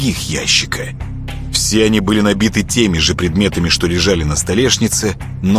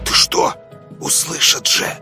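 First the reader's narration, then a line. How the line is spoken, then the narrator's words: Hissing. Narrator (Russian): зашипел Вадик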